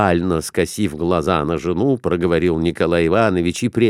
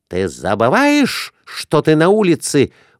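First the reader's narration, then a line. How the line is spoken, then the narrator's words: Shrieked. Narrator (Russian): взвизгнула Глафира Семеновна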